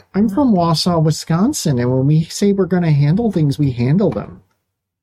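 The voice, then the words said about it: Put-on Wisconsin accent. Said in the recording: “I got to transition out of the accent. I'm just going back to my roots.”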